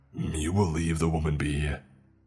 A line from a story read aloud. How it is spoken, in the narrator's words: I growled